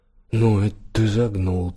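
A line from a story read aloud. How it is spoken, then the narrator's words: Through gritted teeth. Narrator (Russian): процедил Голлинджер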